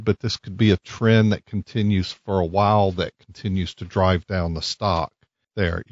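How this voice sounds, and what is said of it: Southern Mississippi accent. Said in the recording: “I'm trying to place the accent ... I've always tried to place your accent when I listen to you on the radio ... I grew up in Hattiesburg ... the way you say just a couple of words, like mail”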